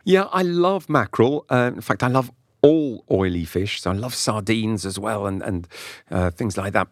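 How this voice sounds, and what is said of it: Slight London English accent. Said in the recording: “you don't have a French accent when you speak English ... probably a bit of a London accent”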